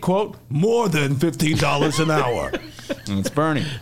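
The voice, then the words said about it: Bernie Sanders impression. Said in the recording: “great imitation”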